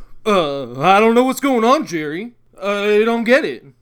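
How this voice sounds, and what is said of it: Poor impression of a sitcom character. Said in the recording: “our very, very, very poor Seinfeld and Kramer impersonations”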